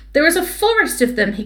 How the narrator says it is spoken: he grumbled

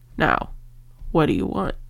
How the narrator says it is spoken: He addressed Eragon roughly, but not unkindly

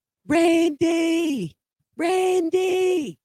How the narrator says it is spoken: her screaming

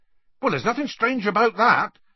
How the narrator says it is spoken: Hagrid added hastily

